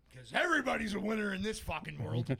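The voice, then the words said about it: Yelling. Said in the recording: “Stop yelling.”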